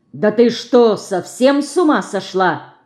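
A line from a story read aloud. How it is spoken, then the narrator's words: Angry sharp shout. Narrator (Russian): сердито прикрикнул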